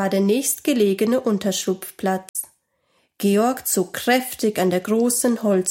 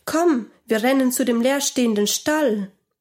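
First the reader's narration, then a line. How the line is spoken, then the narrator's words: Called out. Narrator (German): Georg rief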